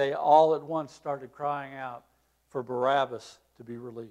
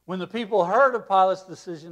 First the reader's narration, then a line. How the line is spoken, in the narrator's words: they cried out